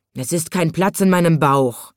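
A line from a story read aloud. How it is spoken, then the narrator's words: Lion's angry hiss. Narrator (German): fauchte der Löwe zornig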